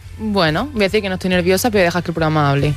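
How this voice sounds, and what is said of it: Almería Spanish accent. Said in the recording (Spanish): “te ha salido tu acento de Almería”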